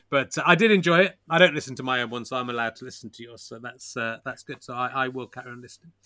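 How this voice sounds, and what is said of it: Hoarse, fading voice. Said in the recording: “I'm slightly losing my voice. ... I've got COVID”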